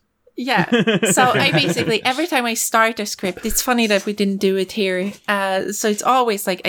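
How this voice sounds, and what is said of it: Usual voice. Nothing is said of it.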